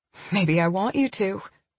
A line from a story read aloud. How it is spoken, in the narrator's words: said it in a playful tone